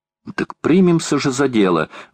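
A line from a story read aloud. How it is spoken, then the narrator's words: Exclamation. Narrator (Russian): воскликнула леди Элен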